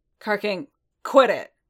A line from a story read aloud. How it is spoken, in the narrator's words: growled, his voice pitched just like an Alor calling out orders on the battlefield